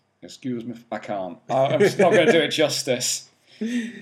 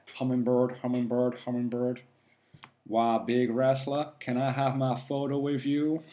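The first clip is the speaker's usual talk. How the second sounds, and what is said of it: Imitated movie character voice, poorly done. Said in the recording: “probably in a Cameron Poe voice ... your best Cameron Poe impression ... Yeah, that was terrible.”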